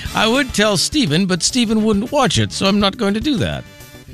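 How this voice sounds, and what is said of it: Imitates a character's voice. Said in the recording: “that was my King Peter impression”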